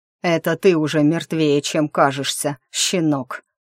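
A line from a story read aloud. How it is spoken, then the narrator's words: Growling. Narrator (Russian): прорычал Громила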